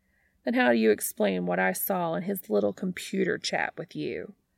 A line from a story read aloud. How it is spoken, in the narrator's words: Pam scoffs